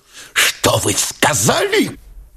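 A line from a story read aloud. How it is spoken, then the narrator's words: Hissing question. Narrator (Russian): шипящим голосом спросил Турбин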